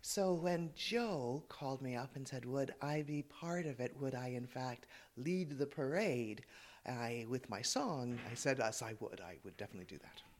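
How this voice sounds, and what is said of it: Canadian accent. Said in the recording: “this is a Canadian accent”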